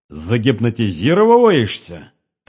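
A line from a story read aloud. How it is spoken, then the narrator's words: Repeated with loud laughter. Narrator (Russian): повторил Богатырев и громко захохотал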